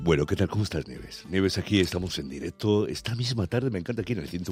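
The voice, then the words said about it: Deep hoarse announcer-style voice. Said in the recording (Spanish): “estoy un poco con la voz así tomada ... tan masculina ... estoy notando algo entre la de voz masculina y femenina ... ¿Verdad que parecen los locutores del vuelo 605?”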